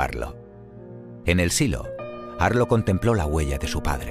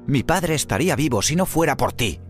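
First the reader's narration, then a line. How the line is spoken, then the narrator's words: Shouting. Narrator (Spanish): gritó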